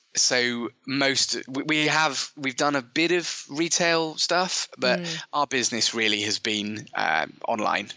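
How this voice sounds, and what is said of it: British English accent. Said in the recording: “by your accent, I'm guessing our listeners have already guessed you're in the UK”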